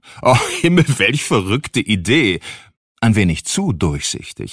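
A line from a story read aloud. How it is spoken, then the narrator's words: Roaring, highly amused. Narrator (German): brüllte unser Besuch aufs Höchste belustigt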